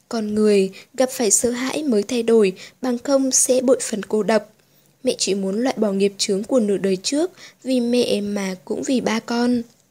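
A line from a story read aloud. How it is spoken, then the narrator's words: Soft. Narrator (Vietnamese): Tô Ánh Vân nói khẽ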